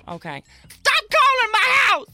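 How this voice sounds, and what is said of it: Yelling angrily. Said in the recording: “You keep yelling ... I'm not going to sit here and listen to somebody yelling”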